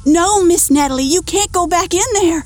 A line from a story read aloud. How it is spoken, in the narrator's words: Martha yells